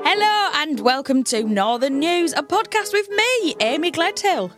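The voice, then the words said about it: Northern English Hull accent. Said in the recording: “you might be able to tell from my accent, I come from Hull.”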